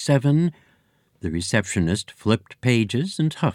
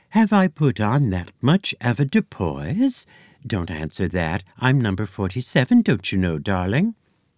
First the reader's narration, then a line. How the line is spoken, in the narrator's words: In a fuller, fluty society lady's voice, she cooed